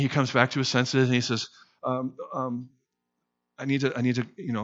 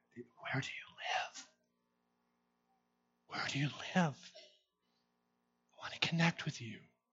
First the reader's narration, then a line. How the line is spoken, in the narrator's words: He whispers from his soul and he says